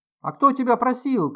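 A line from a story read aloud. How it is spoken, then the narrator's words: Tearful, less resolute shout. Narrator (Russian): крикнула Любочка со слезами на глазах и уже менее решительно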